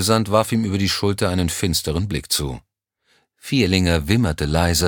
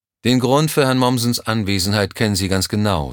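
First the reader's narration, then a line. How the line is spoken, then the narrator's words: Plain. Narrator (German): sagte er dabei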